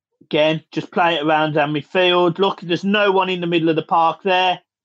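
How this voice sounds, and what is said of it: Thick Scouse accent. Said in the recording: “the thick Scouts accent might be a little bit hard to understand”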